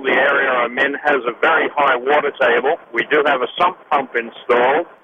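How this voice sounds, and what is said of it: Australian accent. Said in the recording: “are you from Australia? ... I love that accent.”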